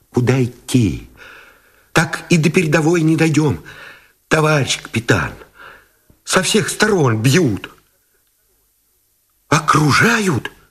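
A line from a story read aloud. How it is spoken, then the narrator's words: Frightened, breathless mumble. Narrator (Russian): испуганно озирая небо, пронизанное свистами мин, сдерживая дыхание, забормотал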